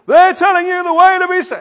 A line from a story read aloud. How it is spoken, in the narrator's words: this lady is shouting